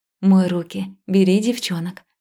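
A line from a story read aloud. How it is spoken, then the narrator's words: Soft, hiding tiredness. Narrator (Russian): сказала я мягко, стараясь не выдать усталости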